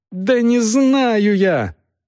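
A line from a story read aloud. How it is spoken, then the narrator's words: Yelled. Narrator (Russian): заорала Агнес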